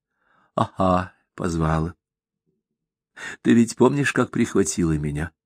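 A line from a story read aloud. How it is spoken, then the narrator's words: Quiet. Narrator (Russian): тихо заговорила Таисия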